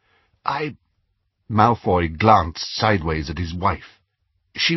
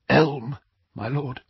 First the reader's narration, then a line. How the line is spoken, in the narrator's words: whispered